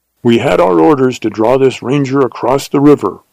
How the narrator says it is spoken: returned the leader harshly

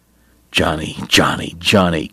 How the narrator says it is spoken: Kate muttered

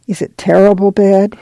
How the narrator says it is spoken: she asked a little timidly

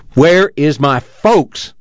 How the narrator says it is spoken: spoke angrily

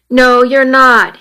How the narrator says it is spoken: said firmly

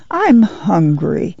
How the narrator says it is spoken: Ruthie whined

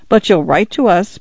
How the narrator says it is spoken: Paula said cheerfully

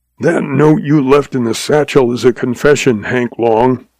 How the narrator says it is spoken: he snarled

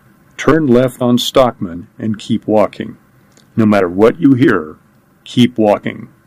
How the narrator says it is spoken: he said as calmly as he could

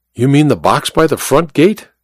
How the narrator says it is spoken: Connell sighed

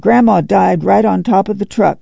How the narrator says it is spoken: She blurted fiercely

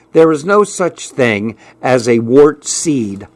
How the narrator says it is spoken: I said

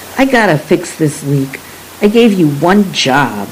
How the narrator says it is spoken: Dad snapped

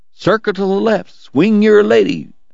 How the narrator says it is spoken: Eddie was hollering

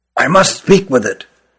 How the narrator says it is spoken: whispered Ruggum

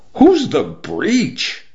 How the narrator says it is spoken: the exponentially multiplying boys cried out

